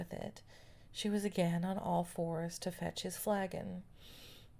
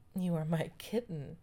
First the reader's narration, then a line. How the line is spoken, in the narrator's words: laughed gaily